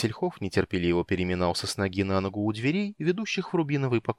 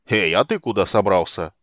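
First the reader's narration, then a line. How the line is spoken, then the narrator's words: Loud question. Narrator (Russian): громко поинтересовался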